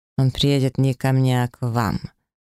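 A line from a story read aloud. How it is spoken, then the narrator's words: Through clenched teeth. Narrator (Russian): процедил инквизитор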